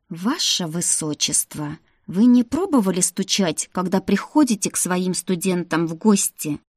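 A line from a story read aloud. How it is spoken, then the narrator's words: Hissed. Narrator (Russian): прошипела я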